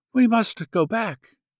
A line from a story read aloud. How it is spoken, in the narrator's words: she sighed and said